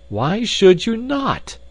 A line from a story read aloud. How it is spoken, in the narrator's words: I cried